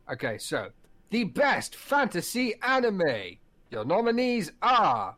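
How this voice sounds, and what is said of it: X Factor presenter voice. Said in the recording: “do your voice? Because you can do the voice. ... The X Factor presenter voice.”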